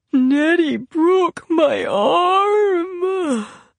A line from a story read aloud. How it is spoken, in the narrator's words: he wailed